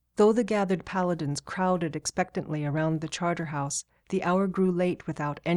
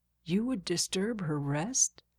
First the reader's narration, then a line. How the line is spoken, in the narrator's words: slurred the sleepy guard